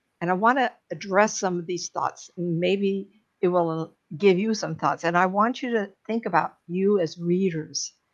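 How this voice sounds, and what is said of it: Strained, off-sounding voice. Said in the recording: “God, my voice again. We have burning in our area. So, of course, my voice is off.”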